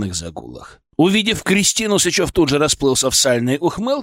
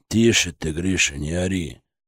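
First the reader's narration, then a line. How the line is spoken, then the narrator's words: Deep gloating bass voice. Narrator (Russian): пробасил дядя Федор, но в его голосе Кристина тоже уловила какие-то злорадные нотки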